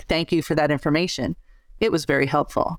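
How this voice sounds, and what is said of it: Flat monotone delivery. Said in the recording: “In a completely monotone, non-emotional way”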